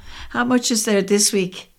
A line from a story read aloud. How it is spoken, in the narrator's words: asked and gave a little laugh